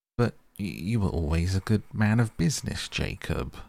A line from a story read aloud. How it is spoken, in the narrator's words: faltered Scrooge